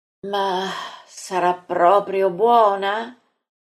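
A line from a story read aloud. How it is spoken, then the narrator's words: Sighing question. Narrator (Italian): Maria chiede in un sospiro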